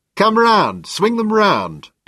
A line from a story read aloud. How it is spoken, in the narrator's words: Dennis's voice through the megaphone boomed distortedly